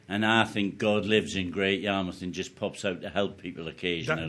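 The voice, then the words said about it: Northeastern English accent. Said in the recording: “that's not a local accent ... a northeastern lad”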